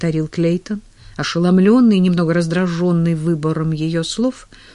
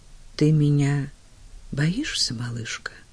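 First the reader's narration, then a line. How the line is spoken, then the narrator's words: Barely audible question. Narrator (Russian): еле слышно спросил он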